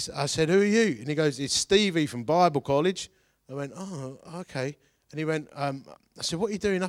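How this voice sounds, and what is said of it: Usual voice. Nothing is said of it.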